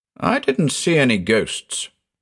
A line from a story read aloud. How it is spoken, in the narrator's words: I retorted irritably